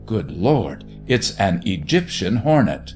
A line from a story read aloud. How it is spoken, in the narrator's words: he merely exclaimed, below his breath